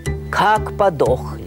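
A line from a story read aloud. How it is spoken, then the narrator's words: Plain, aloud. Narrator (Russian): вслух сказал он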